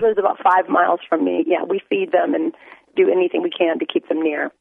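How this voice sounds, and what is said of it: Slightly rough, unwell-sounding voice. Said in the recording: “my voice is a little bit junky”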